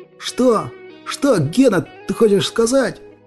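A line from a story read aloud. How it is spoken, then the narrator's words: Loud shout. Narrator (Russian): Громко крикнул Иван, боясь, что Столяров может его не услышать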